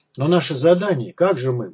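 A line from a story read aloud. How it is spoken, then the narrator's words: Muttering. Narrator (Russian): бормотал он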